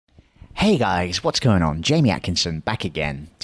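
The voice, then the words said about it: Smooth radio announcer voice. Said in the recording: “Do you like this radio voice of mine? Is it better than the shouting into the microphone?”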